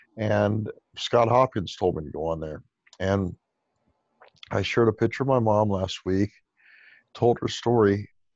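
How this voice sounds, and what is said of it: Hoarse, strained, fading voice. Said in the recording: “I'm losing my voice. I've done so many calls today.”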